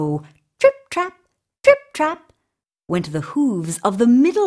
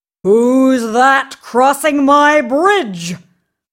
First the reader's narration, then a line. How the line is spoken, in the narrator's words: roared the big, hairy troll